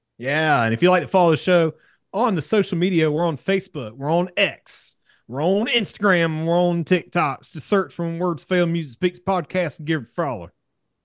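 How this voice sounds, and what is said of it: Put-on country twang. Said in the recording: “Are we trying to do like a country twang there?”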